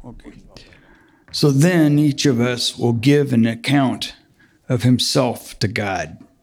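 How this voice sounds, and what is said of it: Deep male voice. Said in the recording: “He's got a good, deep voice.”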